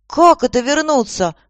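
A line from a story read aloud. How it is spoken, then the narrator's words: Exclaiming. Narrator (Russian): воскликнула Аня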